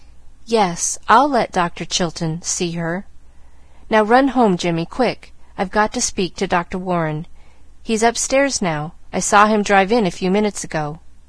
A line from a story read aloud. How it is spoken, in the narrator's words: she said brokenly